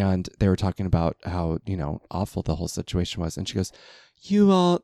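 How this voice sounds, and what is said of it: Usual voice. Nothing is said of it.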